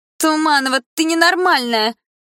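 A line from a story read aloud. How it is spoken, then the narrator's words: Girlfriend shouting. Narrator (Russian): закричала одна из подружек Малины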